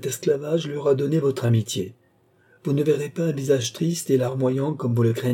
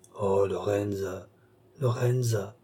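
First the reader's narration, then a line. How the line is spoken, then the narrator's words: Murmured. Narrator (French): murmura Balsamo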